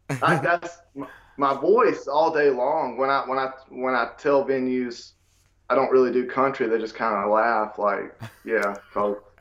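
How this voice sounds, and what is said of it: Country-sounding accent. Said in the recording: “my accent screams it”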